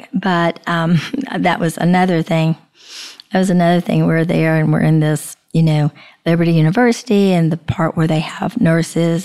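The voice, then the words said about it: Deep, croaky sick voice. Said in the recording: “I sounded like a frog. Now, I'm not too far from a frog right now. My voice is a little bit deep”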